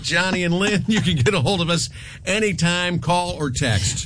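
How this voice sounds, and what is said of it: Usual voice. Nothing is said of it.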